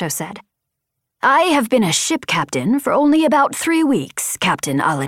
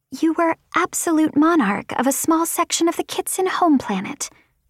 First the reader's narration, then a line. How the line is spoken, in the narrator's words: Vapor said softly